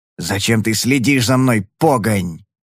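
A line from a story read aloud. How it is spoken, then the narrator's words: Hissing. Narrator (Russian): прошипел он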